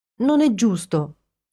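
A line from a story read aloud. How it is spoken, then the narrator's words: Proclaiming, then whimpering. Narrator (Italian): proclamò Ginny e incominciò a piagnucolare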